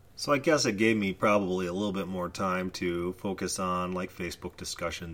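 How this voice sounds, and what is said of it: Weak, sick-sounding voice. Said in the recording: “You'll probably have to excuse my voice today. I have been sick for the last week without a voice”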